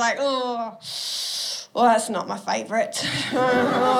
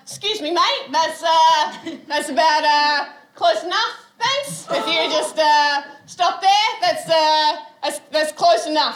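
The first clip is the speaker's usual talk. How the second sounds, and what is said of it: Loud, raised assertive voice. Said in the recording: “raised my voice as about this loud”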